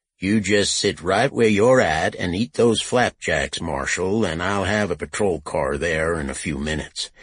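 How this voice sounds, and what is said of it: Slow dry Texas drawl. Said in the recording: “a slow-talking man with a dry Texas accent”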